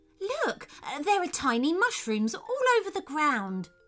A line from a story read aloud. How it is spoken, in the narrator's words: exclaimed Theodore